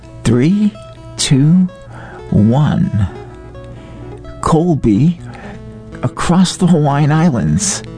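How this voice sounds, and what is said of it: Impression of radio host Derek Malama. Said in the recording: “your Derek Malama impersonation ... nailed it”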